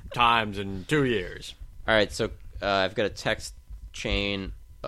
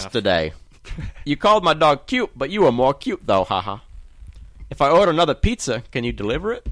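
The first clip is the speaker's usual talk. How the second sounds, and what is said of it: Put-on Scottish accent. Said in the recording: “How about a Scottish accent? ... I'm slipping, I think, in a British ... Very Scottish. Very Scottish”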